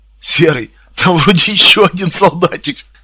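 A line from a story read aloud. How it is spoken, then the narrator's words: Cheerful giggle. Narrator (Russian): весело хихикнул один из незнакомцев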